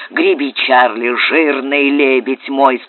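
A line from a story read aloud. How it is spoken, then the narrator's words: Plain. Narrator (Russian): сказал капитан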